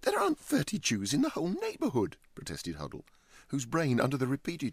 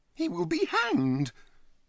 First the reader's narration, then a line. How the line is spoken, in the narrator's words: he exclaimed with conviction